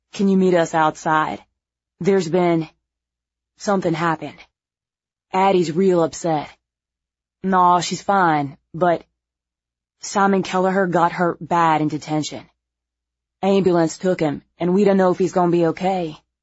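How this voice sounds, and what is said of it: Thick regional accent. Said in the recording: “his accent thicker than normal”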